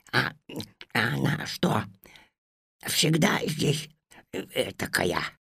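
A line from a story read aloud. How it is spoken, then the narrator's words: Whispered question while chewing. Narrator (Russian): шепотом спрашивал Кузька, жуя медовый пряник с начинкой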